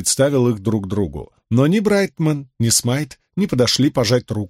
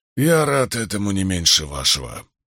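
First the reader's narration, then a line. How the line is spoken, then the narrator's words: Hoarse croak. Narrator (Russian): прохрипел Вудвард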